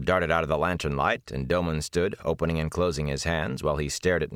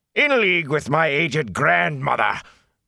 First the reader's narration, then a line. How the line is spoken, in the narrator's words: Captain Doman roared